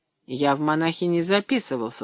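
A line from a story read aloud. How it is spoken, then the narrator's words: Son's embarrassed mumble. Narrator (Russian): смущенно пробурчал сын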